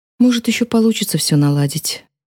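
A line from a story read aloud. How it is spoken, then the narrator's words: Sighing. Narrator (Russian): вздохнула мама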